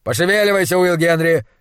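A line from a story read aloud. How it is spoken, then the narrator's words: Barked. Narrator (Russian): рявкнул он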